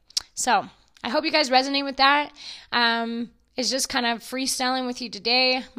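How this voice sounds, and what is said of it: Hoarse, partly lost voice. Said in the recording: “My voice is coming back from my long birthday weekend that I recently had. I tend to lose my voice”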